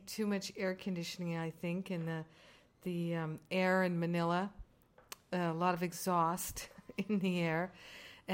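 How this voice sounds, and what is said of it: Slightly hoarse, croaky voice. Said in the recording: “I've got a little bit of a frog in my throat”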